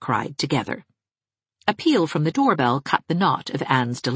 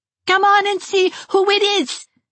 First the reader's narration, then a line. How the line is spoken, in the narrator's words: cried Geraldine